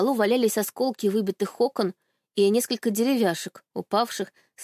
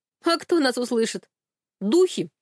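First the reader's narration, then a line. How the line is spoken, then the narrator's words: Chuckling. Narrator (Russian): Хохотнул Андрей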